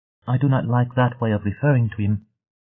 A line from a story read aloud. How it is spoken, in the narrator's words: Nishi said